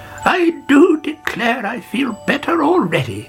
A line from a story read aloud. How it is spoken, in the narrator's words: she cried